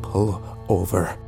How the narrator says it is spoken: I said quietly

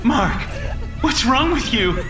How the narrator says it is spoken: She cried again, but she was smiling now

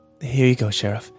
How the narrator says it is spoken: she said weakly

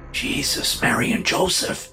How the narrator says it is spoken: the man whispered

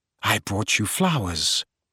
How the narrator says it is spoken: he said quietly

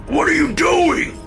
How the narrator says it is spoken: Dad screamed

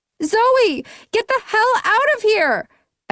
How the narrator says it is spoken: I yelled

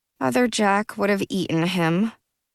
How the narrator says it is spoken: I said miserably

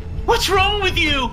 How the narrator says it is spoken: he screamed

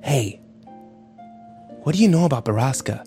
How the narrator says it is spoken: Ike whispered to him

